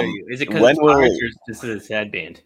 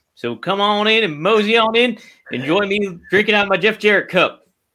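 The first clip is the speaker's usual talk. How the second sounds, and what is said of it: Silly put-on accent. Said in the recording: “what's with the accent? That's stupid.”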